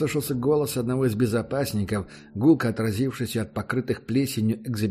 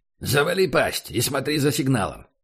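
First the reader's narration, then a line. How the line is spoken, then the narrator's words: Barking. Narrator (Russian): рявкнул он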